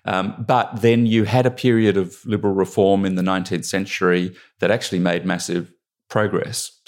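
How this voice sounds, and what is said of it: Australian accent. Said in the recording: “me with my Australian accent”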